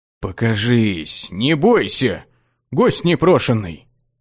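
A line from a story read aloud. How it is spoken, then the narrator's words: Confused mutter, magician. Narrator (Russian): Пробормотал окончательно сбитый с толку маг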